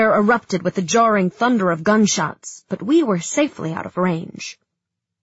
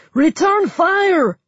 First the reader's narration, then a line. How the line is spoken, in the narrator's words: Someone shouted